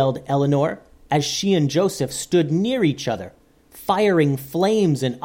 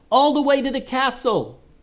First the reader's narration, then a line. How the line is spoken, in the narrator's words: yelled Joseph